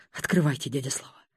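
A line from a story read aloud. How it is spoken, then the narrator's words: Exhaled, anguished. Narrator (Russian): выдохнул Будимир, прижавший кулаки к вискам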